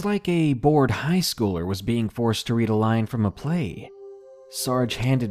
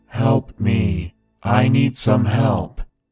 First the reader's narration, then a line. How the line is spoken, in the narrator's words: In a loud, monotone voice, he shouted